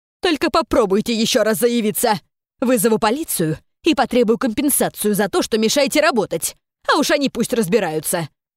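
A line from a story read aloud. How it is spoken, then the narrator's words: Yelling. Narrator (Russian): Вопила Кёнхи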